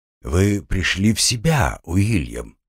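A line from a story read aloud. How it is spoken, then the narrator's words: Even, level male voice. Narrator (Russian): ровным голосом проговорил мужчина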